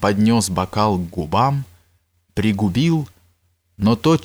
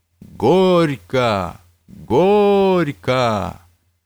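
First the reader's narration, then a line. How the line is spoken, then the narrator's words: Cheerful crowd shouting. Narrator (Russian): все гости, весело улыбаясь, тоже закричали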